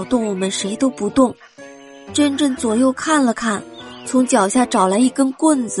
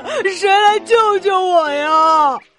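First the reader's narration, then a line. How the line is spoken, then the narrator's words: Loud tearful cry. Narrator (Chinese): 小刺猬 带着哭腔大声的喊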